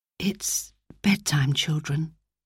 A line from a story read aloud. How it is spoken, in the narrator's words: she said softly